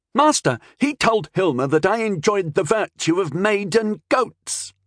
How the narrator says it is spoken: Rondel shouted back angrily

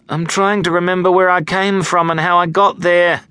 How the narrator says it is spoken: groaned

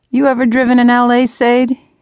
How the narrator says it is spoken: he shouts back, grinning

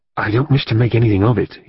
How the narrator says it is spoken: he said in a low tone

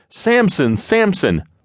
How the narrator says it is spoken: they all began yelling

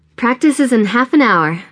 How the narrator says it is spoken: Nora shouts as she bursts through the front door

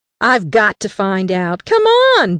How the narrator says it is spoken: Brad exclaimed, abruptly bolting into the woods

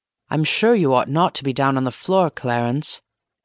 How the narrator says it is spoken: said Mr

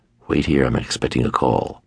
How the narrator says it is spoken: I whispered

